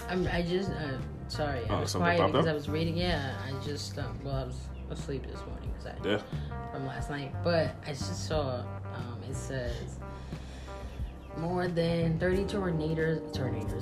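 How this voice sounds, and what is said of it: Southern American accent. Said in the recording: “your southern accent kicked in”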